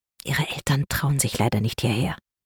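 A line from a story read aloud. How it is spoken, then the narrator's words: Quiet. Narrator (German): sagte er leise zu Paulina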